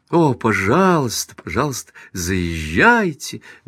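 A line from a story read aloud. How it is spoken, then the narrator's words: Fervent exclamation. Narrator (Russian): горячо воскликнула миссис Брэндон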